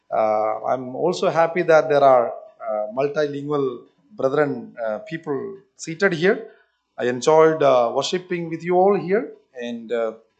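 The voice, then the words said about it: Indian English accent. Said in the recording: “I am from South Kerala, but I am last 23 years I am stationed in northern part of India ... forgive me if you don't understand my language and my accent.”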